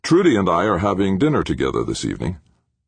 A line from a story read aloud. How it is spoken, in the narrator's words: Smoothly, McClintock continued